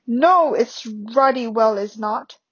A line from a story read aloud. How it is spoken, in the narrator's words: bellowed Uncle Vernon